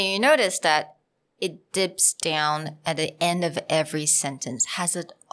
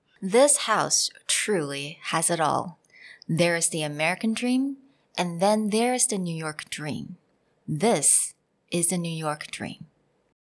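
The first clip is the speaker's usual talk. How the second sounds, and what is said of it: Transatlantic accent, sing-song, crisp Ts. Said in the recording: “try the transatlantic accent ... with that sing songy, the tease ... That T, it's very strong. Really hitting those sounds”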